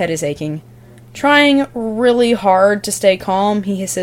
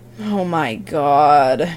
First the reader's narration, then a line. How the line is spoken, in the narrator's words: groans John